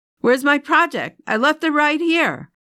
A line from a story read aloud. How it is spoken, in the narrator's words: she heard Ella shouting from the hallway